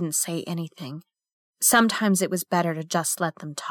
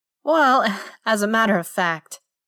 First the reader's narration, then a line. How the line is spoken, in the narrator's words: he said with a little chuckle